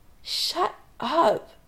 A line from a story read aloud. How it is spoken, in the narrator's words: Adam groans